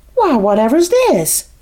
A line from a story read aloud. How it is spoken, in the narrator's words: she cried